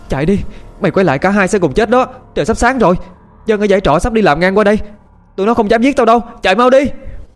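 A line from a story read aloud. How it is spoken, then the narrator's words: Panicked shout. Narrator (Vietnamese): Thư quản hốt, chưa biết ớt giáp gì mà hét lên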